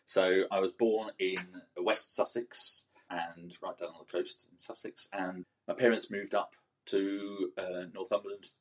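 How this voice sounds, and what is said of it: Southern English accent. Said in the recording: “you might detect from my accent that I'm actually not originally from Northumberland ... So I've perfected this southern accent”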